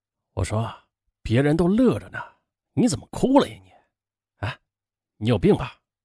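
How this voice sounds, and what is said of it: Quiet, hushed speech. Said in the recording (Chinese): “小声的跟他说”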